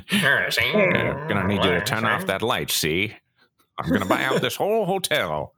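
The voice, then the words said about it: Old-timey 1930s gangster accent. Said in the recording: “30s accent, like the gangster kind ... That's like a 49er accent.”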